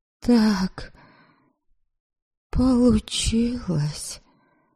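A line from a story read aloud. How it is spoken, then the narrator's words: Ashamed mumble. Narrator (Russian): Промямлила я, как никогда прежде желая провалиться сквозь пол от стыда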